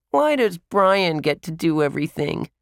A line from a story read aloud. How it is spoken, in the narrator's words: Bradley whined